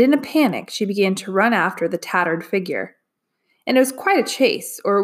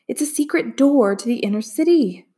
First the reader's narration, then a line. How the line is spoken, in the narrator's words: Min Li gasped